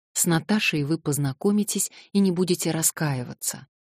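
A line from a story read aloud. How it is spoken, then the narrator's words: Plain. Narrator (Russian): сказал я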